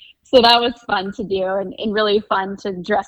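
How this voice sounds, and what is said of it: Usual voice. Nothing is said of it.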